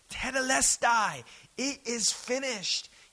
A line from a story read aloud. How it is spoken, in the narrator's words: Jesus is shouting